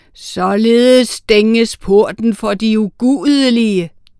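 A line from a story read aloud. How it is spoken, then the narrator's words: Thundering voice. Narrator (Danish): tordnede Sankt Peter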